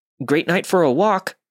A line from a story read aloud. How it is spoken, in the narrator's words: I was so nervous that I blurted out